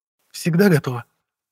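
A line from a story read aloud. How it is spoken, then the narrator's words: Cheerful answer. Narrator (Russian): бодро ответила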